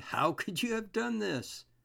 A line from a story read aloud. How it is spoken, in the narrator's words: They exclaimed